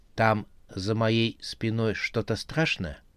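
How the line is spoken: Whispered question. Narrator (Russian): Белка шепотом спросила

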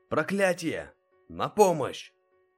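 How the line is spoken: Guard shouting. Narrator (Russian): закричал стражник

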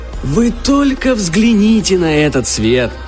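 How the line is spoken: Exclamation. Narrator (Russian): воскликнул Барри

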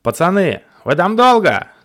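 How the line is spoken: Shout. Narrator (Russian): крикнул я Никите

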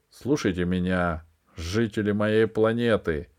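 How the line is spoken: Low commanding voice. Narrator (Russian): произнесла она низким властным голосом

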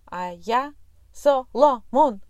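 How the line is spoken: Abrupt loud bass shout. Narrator (Russian): отрывисто выкрикнул пес, ошаравшив, ошарашив птенца своим громким басом

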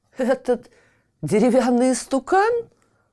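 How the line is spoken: Man guffawing. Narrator (Russian): захохотал царь

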